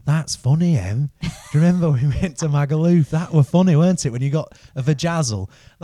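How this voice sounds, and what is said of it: Good generic northern English accent. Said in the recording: “you did a very good accent, but not from Nottingham ... A good generic north ... Generic northern ... Sheffield or something”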